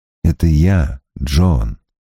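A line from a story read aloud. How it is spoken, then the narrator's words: Quiet. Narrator (Russian): тихо сказал он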